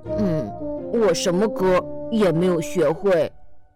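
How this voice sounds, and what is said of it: Quiet mumbling voice. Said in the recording (Chinese): “小声嘟囔着说”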